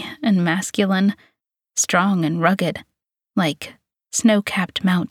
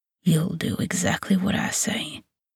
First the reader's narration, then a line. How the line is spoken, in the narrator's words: he whispers, his voice low and husky, affected with arousal